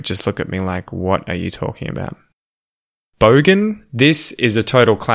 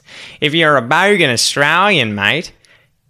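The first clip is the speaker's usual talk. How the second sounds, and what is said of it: Very thick, strong bogan Australian accent. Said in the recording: “has a really thick accent, a really strong accent ... if you were a bogan Australian, you'd sound like this ... That's the kind of accent a bogan has. It's so, so strong.”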